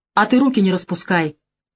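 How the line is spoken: Angry, curt. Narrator (Russian): зло бросила Наташа

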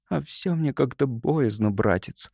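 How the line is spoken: Girl's timid confession. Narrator (Russian): призналась девочка, робко

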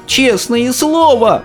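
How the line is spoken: Shouted. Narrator (Russian): закричал бедный Шустер

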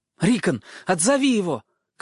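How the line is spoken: Shout. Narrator (Russian): крикнул Бран своему маленькому брату

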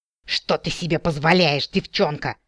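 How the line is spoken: Menacing hiss. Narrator (Russian): страшно прошипел орк

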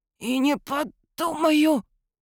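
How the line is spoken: Hoarse rasp. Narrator (Russian): прохрипел тот

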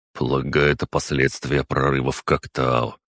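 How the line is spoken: Wry snort. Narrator (Russian): хмыкнул Костя

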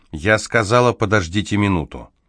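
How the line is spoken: Firm voice. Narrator (Russian): Люси твердым голосом добавила

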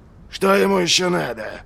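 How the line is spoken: Grumbling. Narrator (Russian): проворчал Доу

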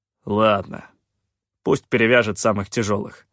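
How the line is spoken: Grumbling. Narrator (Russian): проворчал Калаан

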